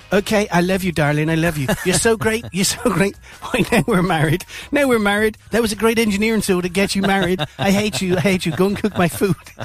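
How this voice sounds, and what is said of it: Imitates another person's voice. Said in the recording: “Quite a good Trump impression”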